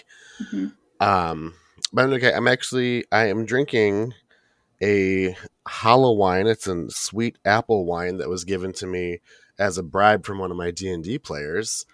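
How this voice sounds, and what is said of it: Slightly deeper voice, has a cold. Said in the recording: “My voice might sound a little deeper. I'm fighting off a cold”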